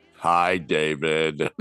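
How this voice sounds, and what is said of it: Imitates another person's voice. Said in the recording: “Is that your Lucy voice? ... I'm doing my Lucy voice.”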